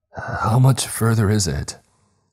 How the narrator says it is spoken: I called out between gasps

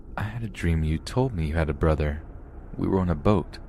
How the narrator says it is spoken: as she woke up to my statement, she sleepily replied

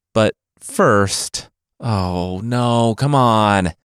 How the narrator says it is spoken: the traveler groaned

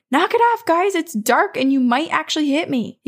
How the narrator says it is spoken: So he simply shouts

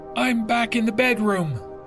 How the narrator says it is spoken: she yelled back to me

